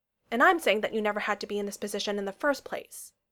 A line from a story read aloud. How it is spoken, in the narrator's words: Sam said